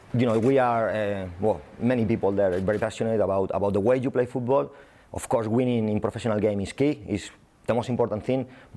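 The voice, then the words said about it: Spanish accent. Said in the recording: “I'm Spanish, as you can see with my accent.”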